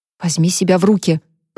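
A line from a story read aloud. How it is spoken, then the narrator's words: Muttered. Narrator (Russian): пробормотала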